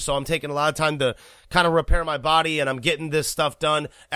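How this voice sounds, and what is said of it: Rough, sick-sounding voice. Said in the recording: “you can tell in my own voice right now, I got a little bit of a bad voice. I'm kind of sick right now”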